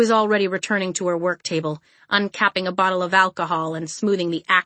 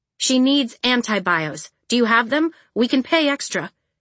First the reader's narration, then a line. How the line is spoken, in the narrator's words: Caledonia said